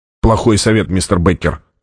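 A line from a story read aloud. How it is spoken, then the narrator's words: Snapping retort. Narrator (Russian): огрызнулся Джабба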